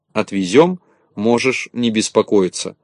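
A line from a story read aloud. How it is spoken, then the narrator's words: Plain. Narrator (Russian): ответил Незнайка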